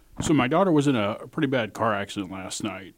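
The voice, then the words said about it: Choked-up, emotional voice. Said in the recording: “I'm getting a little bit choked up”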